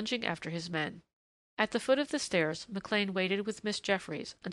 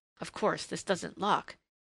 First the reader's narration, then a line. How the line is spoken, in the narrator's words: he muttered